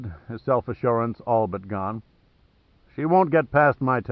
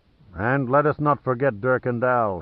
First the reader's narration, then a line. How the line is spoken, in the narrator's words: he said grimly